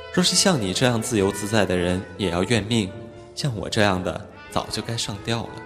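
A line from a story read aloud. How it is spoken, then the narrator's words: Sighing. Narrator (Chinese): 流苏叹道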